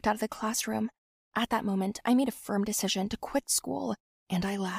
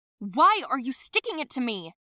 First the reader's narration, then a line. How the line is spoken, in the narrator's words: yelled at her